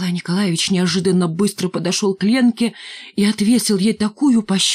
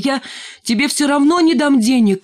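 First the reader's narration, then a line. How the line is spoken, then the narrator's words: Shouting after someone. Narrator (Russian): крикнул он вслед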